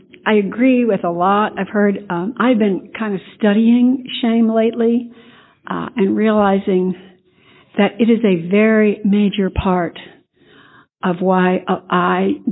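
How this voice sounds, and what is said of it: Voice affected by a cold. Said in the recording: “I have a bit of a cold”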